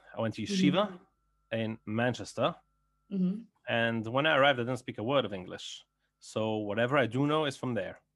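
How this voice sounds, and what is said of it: Belgian speaker with English-learned accent. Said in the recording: “you have a very cool accent ... I'm actually from Belgium ... But I picked up my English in England”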